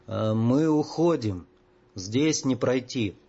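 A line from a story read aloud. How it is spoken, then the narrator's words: Very slow, halting speech. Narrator (Russian): Мальгин очень медленно, с трудом подбирая слова, произнес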